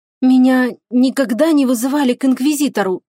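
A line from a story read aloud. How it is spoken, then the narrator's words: Slightly trembling voice. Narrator (Russian): чуть дрогнувшим голосом произнесла Виола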